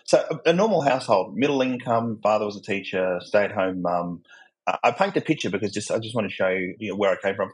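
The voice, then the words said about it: Australian accent. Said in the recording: “my accent, I'm not American, I'm Australian.”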